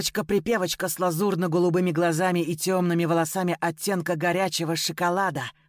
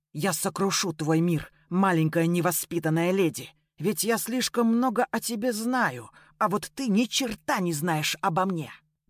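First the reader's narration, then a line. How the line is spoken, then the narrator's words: Whispering to self, mantra-like. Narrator (Russian): Прошептал про себя словно мантру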